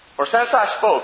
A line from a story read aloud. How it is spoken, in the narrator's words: I cried out